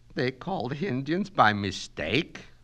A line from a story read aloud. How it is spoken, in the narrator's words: moaned Mrs